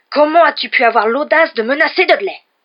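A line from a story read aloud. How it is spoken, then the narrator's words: Roaring uncle. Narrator (French): rugit l'oncle Vernon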